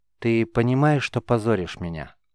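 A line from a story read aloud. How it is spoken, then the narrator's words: Tired young woman. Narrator (Russian): устало спросила девушка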